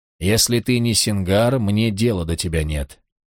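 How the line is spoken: Even, calm voice. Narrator (Russian): Он ответил ровным голосом

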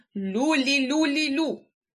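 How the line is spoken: Angry loud thunder. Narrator (Ukrainian): сердито гримнув Карлсон

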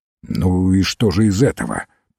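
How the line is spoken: Grumbled. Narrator (Russian): пробурчал Фламбо

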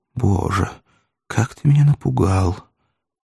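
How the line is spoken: Quiet, ingratiating. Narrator (Russian): улыбнулся, как бы заискивающей улыбкой, и тихо молвил

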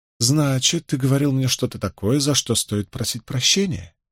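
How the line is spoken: Silky purr. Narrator (Russian): Вкрадчиво промурлыкала Фейли

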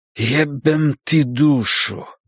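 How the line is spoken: Groaning. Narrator (Russian): простонал

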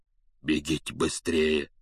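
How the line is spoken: Hoarse command. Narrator (Russian): севшим голосом велел он

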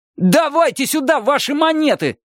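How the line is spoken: Shouting. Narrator (Russian): заорал он наконец

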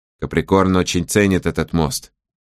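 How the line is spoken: Quiet. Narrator (Russian): тихо сказал Сожирук

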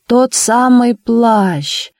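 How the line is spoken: Loud singsong woman's voice. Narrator (Russian): громко нараспев сказала Наина Георгиевна

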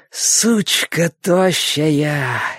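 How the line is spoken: Happy exhale. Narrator (Russian): счастливо выдохнул Борис

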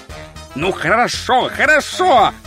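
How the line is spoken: Barked. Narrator (Russian): рявкнул Ринсвинд

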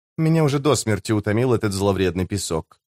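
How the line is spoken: Mutter. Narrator (Russian): пробормотала она

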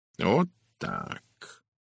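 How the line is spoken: Mumbled. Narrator (Russian): пробормотал Пуаро

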